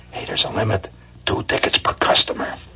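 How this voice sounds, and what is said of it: Speaking in a low voice. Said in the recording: “say in a low voice ... Just low voice. Is that low enough”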